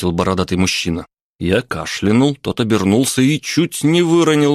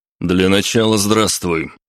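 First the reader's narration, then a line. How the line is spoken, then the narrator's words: Stern, imposing. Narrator (Russian): строго произнес я, полный намерения произвести впечатление на трактирщика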